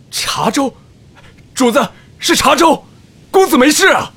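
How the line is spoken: Loud shouting. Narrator (Chinese): 这几嗓子喊得响

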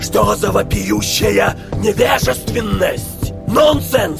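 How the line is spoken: Vampire's icy indignant shout. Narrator (Russian): Обрушивая на Сатин ледяные волны негодования, крикнул вампир

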